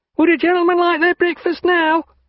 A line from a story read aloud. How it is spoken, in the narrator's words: asked a chambermaid, bawling through the door